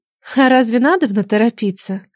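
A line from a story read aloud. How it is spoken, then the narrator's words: Sighing. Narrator (Russian): вздохнула Нелада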